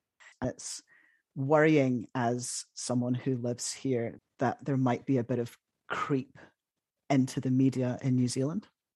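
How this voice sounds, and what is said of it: British accent. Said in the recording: “your accent, you're from the UK”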